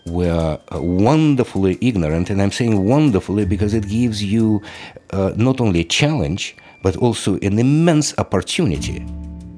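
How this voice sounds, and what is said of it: Russian-accented English. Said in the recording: “I don't think that's a Boston accent ... Not unless there's a city in the former Soviet Union that's called Boston. Now, he's from Russia”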